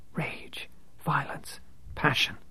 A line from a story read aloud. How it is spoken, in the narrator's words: she whispered